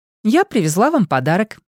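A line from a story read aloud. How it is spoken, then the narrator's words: Cheerful announcement. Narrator (Russian): весело объявляет Поппет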